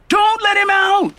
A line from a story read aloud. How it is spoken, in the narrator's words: Ebony shouted